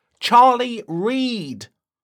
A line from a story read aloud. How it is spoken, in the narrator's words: shouted Justin